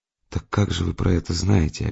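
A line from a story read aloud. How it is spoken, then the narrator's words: Barely audible question. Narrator (Russian): опять чуть слышно спросила она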